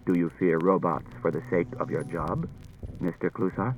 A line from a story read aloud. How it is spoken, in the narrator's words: Daniil said quietly to Klusar